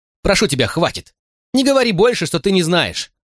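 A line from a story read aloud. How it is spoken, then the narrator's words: Overwhelmed emotional shout. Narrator (Russian): закричал я, потому что эмоции вдруг переполнили меня, и я не мог сдерживаться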